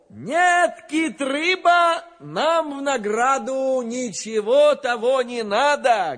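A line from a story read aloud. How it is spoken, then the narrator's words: Plain. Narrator (Russian): говорит ему Иван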